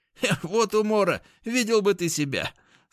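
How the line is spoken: Laughing. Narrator (Russian): смеялся он

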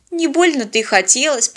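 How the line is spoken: Grumbled, disappointed. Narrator (Russian): проворчала она, чтобы унять разочарование

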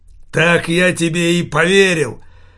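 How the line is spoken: Roaring. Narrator (Russian): взревел Савиньи

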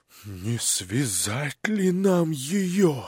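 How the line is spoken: Whisper. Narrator (Russian): шепнул генерал Птицыну

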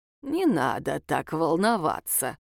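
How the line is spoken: Mocking snort. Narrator (Russian): издевательски хмыкнул

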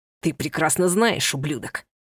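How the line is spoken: Hissing. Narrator (Russian): Прошипел Ива

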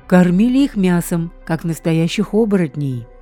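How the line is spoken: Sigh. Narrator (Russian): вздохнул Барк

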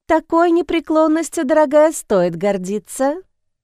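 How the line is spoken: Cooing. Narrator (Russian): проворковала Эмили

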